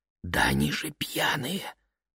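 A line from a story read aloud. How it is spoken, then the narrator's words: Whisper. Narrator (Russian): шепнула она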